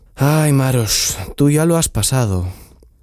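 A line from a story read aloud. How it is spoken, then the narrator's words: Sighing. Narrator (Spanish): suspiró Chiprich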